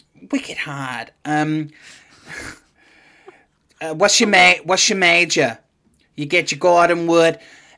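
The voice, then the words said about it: Poor attempt at Boston accent. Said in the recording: “a Bostonian accent ... No, terrible.”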